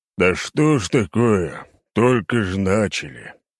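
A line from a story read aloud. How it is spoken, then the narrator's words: Grumbling. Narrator (Russian): проворчал Егорыч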